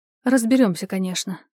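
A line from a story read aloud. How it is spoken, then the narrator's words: Calm, suppressing agitation. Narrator (Russian): проговорила в ответ спокойно, хотя внутри все бушевало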